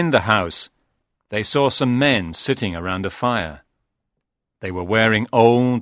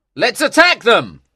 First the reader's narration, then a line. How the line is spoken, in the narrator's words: cried the handsome man